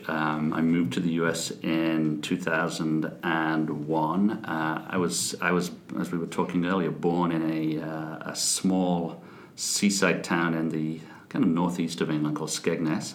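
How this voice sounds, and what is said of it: English accent, not American. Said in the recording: “That accent does not sound real American to me”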